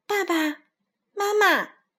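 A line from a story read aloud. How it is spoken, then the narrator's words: Tiny child calling out. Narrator (Chinese): 只有三个苹果高的他叫道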